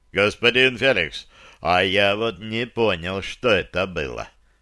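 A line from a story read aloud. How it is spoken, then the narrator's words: Puzzled grumble, big man. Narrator (Russian): проворчал здоровяк, не понимающий причины изменения моих показаний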